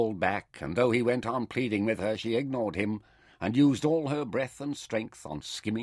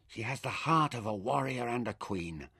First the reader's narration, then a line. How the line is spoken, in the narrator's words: whispered